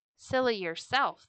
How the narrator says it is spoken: turtle wanted to answer crossly

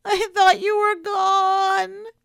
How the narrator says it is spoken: she wailed into his pocket

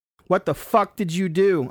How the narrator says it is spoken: I yelled at the jar

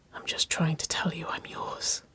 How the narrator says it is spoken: whispered, the words vibrating against lips

